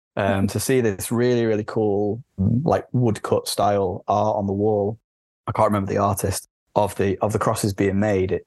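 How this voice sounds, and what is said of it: Northern English accent. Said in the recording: “You can tell by my accent, I'm very much from the north.”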